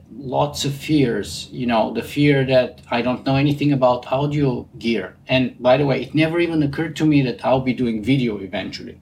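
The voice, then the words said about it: Distinct Bulgarian accent in English. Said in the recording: “I have a pretty distinct Bulgarian accent ... a distinctly captivating Bulgarian accent”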